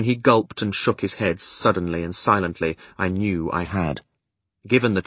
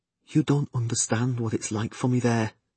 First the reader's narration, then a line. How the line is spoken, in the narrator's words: he whispered feebly